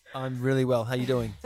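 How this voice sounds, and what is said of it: Sultry, seductive voice. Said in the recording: “Just put a sexy voice? ... you switch gears into sexy”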